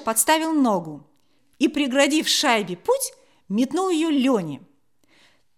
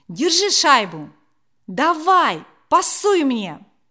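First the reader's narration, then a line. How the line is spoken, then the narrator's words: Loud shout. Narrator (Russian): громко крикнув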